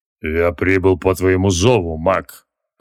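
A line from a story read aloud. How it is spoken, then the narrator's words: Deep bass voice. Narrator (Russian): пробасил Ранов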